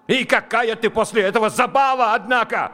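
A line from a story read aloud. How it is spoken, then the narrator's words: Yelled. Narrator (Russian): заорал он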